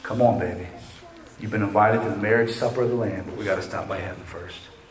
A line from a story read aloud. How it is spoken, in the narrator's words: gently tell them